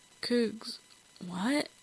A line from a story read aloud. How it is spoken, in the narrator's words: Jensen mumbled